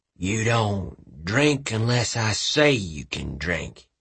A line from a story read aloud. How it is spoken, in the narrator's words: he growled in a thick southern drawl